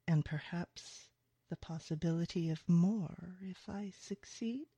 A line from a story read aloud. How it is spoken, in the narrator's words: he purrs